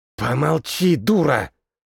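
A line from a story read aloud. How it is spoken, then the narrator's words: Hissed. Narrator (Russian): Зашипел на нее еще один маг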